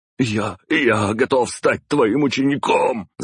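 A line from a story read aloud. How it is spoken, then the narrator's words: Shouted. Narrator (Russian): закричал он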